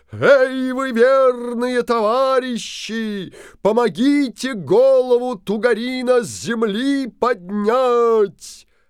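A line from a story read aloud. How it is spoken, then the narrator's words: Loud booming shout. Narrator (Russian): Крикнул Алеша Попович зычным голосом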